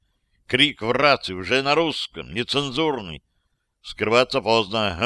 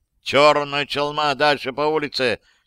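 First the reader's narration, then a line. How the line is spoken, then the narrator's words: Shouted. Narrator (Russian): крикнул Борецков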